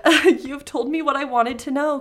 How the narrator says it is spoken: cried the fairy

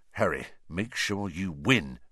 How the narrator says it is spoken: said Percy in an urgent whisper

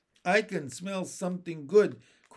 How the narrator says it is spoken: cried Benny

